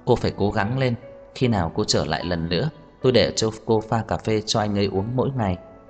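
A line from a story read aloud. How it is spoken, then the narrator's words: Reluctant. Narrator (Vietnamese): Tiêu Đồng bất đắc dĩ nói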